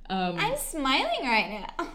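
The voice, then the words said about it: Chirpy customer service voice. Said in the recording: “that was like my customer service voice”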